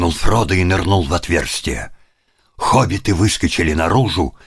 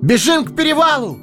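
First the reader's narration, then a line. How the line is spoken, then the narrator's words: Ringing shout. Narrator (Russian): звонко закричал Фродо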